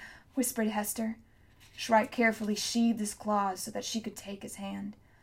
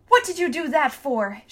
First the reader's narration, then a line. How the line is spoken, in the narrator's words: shouted